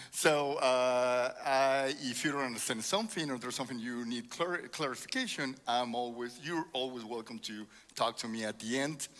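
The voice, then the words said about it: Strong Spanish accent. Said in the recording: “I have a strong accent... my first language, obviously, should be English, but... it's Spanish”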